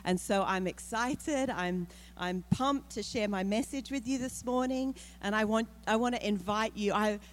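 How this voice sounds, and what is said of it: Australian accent. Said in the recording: “I'm from Australia... I'm from the very, very deep south... So I've got this accent”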